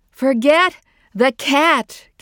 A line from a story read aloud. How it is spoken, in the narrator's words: Caroline shouted